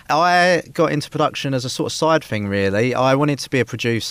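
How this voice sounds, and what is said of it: Essex English accent. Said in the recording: “the accent ... I was not going to pronounce properly with the Essex accent sadly”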